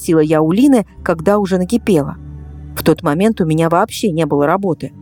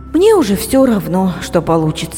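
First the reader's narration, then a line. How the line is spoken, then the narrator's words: Sighing. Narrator (Russian): вздохнула я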